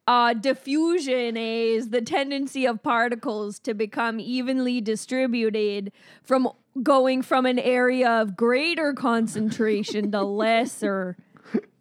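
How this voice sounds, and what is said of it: Put-on Canadian accent. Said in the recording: “Say something super smart about science in that accent, a Canadian accent.”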